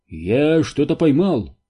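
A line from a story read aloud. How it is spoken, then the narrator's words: Exclaimed. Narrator (Russian): воскликнул он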